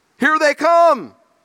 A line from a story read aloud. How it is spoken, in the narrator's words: a sergeant yelled out